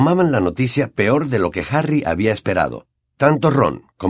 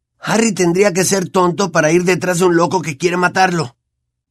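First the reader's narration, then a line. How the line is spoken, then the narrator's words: Trembling exclamation. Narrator (Spanish): exclamó Ron, temblando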